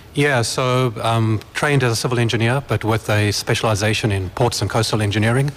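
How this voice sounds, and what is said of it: South African accent. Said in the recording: “you're from South Africa ... I'm sure my accent will give me away”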